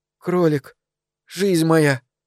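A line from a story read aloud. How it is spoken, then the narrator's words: Breathy exhale. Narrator (Russian): выдохнула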